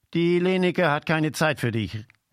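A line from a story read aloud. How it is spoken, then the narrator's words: Calling across. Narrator (German): rief rüber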